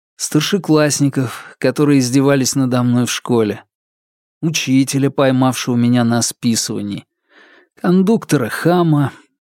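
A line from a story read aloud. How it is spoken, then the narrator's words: Sighing addition. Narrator (Russian): вздохнув, добавил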